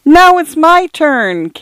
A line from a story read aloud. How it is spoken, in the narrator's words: came the distant wail